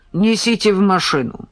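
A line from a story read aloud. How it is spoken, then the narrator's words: Gruff rude woman's order. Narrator (Russian): Хмурая, нелюбезная тетка весьма грубо приказала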